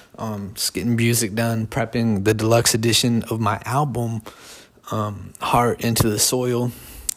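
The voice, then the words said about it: Quiet, soft-spoken voice. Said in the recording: “sore throat ... I'm talking really quiet. Let me uh, jump my voice up a little bit.”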